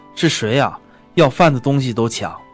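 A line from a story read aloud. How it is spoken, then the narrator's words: Old man shouting. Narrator (Chinese): 盲老人大声喊道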